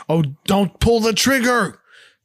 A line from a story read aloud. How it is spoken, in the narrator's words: the skipper shouts